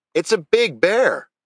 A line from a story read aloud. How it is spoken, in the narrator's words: Little Bit shouted